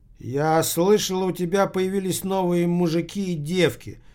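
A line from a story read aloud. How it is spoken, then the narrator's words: Plain. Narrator (Russian): сказала она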